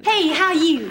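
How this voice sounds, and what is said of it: Heavy put-on accent. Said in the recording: “she answers back in a heavy accent. ... Carlson is thrown by the accent.”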